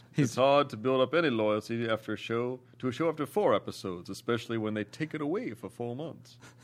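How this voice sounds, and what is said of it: Put-on generic Southern accent. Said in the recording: “Generic Southern gentleman”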